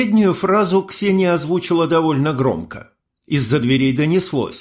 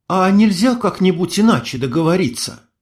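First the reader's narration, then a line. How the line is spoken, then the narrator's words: Sighing. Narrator (Russian): Я вздохнул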